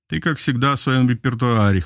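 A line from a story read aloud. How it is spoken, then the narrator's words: Snorting grunt. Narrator (Russian): хмыкнул он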